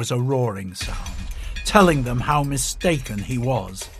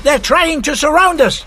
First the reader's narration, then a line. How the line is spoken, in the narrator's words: called out